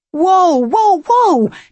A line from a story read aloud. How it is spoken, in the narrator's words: Nico shouted